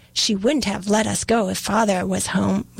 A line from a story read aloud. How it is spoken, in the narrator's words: replied James